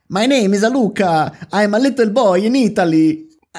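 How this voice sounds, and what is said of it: Put-on Italian accent in English. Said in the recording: “they've given the boy like a typical Italian English accent”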